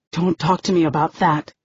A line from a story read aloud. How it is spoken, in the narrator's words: hisses Eight